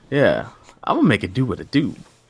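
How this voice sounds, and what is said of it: Imitates another person's voice. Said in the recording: “my Ray Charles impression”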